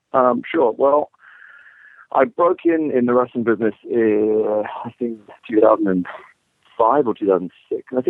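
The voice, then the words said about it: English accent. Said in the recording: “judging by your accent, that you aren't from around here originally ... from England”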